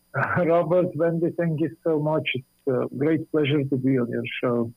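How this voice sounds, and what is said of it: Slight foreign accent. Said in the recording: “You have a little accent there”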